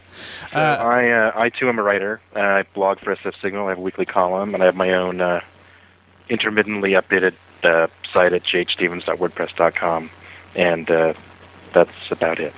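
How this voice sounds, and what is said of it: Husky, congested voice. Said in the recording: “I have my extra sexy, I have a cold voice tonight.”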